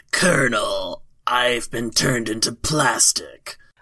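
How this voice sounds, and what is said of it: Solid Snake impression. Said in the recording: “Might actually get the snake one so I can do an impersonation”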